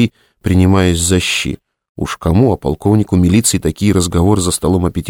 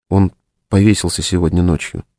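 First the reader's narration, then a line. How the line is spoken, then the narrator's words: Quiet. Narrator (Russian): тихо сказала Лена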